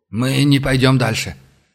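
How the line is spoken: Hoarse demon voice. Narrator (Russian): хрипло произнес бес

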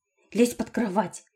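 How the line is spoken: Whisper. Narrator (Russian): прошептала я

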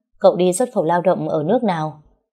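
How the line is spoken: Scornful sarcastic woman. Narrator (Vietnamese): cô ta khinh thường ra mặt rồi mỉa mai nói

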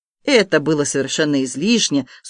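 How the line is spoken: Dry. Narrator (Russian): сухо сказала Полина

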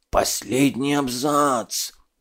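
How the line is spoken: Whispered. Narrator (Russian): зашептал музейщик

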